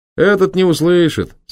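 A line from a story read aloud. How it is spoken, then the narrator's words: Amused, laughing. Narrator (Russian): сказал кучер и сам засмеялся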